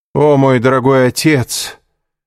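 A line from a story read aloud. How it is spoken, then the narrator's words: Loud, meant to be overheard. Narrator (Russian): громко сказал Андреа, так, чтобы граф мог его услышать из-за закрытой двери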